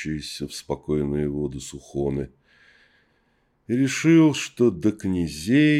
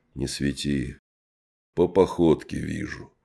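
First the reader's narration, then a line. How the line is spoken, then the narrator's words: Muffled, host. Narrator (Russian): глухо сказал хозяин дома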